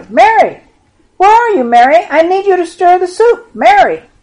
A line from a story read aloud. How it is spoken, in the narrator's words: Martha shouted